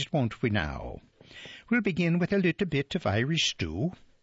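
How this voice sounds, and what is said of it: Put-on Irish accent. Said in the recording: “in honor of St. Patrick's Day ... that's the end of my accent.”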